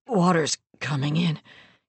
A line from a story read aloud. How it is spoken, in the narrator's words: croaked, gently but regretfully